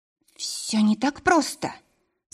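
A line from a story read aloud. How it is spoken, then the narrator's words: Trembling voice. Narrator (Russian): сказала я дрогнувшим голосом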